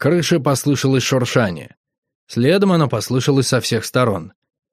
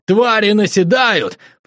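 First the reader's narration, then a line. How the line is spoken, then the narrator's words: Yelling at top of lungs. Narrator (Russian): Заорав во все горло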